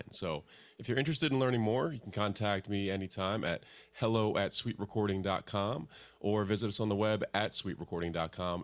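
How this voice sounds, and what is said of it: Polished radio announcer voice. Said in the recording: “He's getting that radio voice now.”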